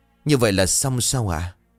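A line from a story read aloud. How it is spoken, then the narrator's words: Trembling. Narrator (Vietnamese): run rẩy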